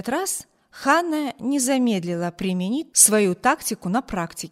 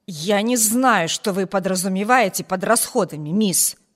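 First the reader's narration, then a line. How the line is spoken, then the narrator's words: Angry growl. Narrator (Russian): прорычала она, как сердитая собака, готовая наброситься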